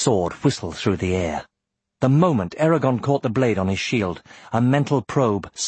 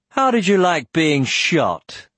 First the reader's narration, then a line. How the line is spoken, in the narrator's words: Putting all the derision he could into his voice, he jeered